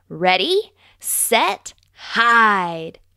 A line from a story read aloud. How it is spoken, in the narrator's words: shouted Fox